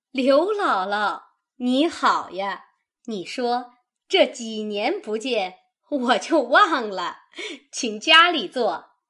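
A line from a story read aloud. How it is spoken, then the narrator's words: Laughing. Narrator (Chinese): 周瑞家的 方笑道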